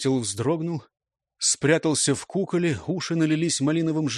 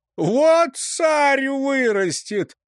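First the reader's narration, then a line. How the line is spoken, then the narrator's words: Old man's guffaw. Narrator (Russian): захохотал дед-кружак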